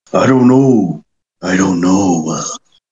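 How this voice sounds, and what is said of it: Imitates another person's voice. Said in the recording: “That's my Triple H impression.”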